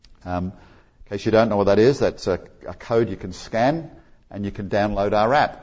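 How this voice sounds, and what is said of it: Australian accent. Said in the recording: “this guy with a neat Aussie accent”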